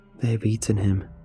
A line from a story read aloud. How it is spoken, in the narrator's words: said softly